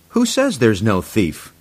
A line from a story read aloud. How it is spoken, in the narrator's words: said